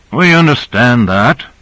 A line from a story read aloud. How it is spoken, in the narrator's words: broke in Duval stiffly